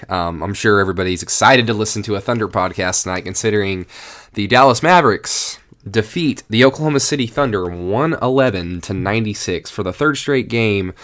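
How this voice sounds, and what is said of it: Sick, unwell-sounding voice. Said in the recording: “they've kind of gotten just now recently gotten over you know their sinus infection or their cold ... bound to get or catch something um, yourself ... I'm sorry if I sound terrible”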